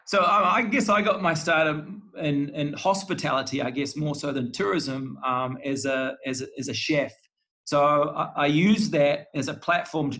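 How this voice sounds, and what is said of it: New Zealand accent. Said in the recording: “I'm a New Zealander ... I get mistaken for an Australian quite often ... a Kiwi accent over an Aussie”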